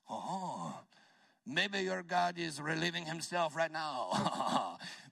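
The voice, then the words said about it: Put-on French accent. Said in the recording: “very French ... you can read it in the French accent.”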